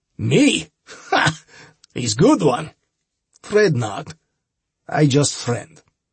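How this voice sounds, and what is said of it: Heavy Eastern European accent. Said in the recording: “The old man had some sort of heavy Eastern European accent.”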